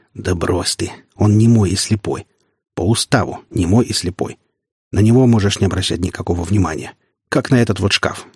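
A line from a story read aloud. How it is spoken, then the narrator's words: Plain. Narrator (Russian): сказал мужчина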